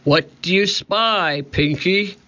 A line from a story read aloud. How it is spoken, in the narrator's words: shouted Cap'n Bones